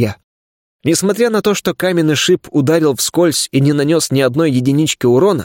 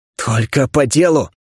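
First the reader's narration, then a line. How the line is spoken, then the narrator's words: Sharp, through gritted teeth. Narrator (Russian): сквозь зубы прикрикнул на него я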